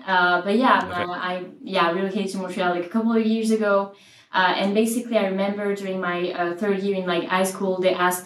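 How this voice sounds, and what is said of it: French accent. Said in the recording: “I'm Frenchy, so maybe my accent you will see that.”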